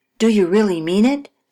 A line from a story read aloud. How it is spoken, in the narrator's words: she asked eagerly